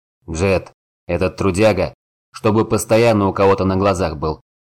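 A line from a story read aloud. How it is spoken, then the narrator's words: Growled. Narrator (Russian): рыкнул Горд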